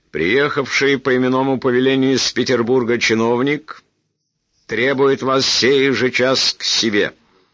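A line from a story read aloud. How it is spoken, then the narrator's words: Sudden loud solemn. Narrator (Russian): Человек с интересным лицом после паузы вдруг громко торжественно сказал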